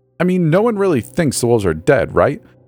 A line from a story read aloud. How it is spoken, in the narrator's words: said, unable to hide the pleading tone from my voice